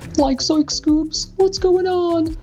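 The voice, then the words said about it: Imitates Shaggy cartoon voice. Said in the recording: “my impression of a brief conversation between Shaggy and Scooby-Doo”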